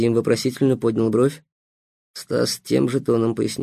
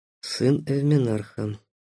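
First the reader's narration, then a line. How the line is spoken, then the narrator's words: Muffled dull reply. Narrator (Russian): глухо ответил Панов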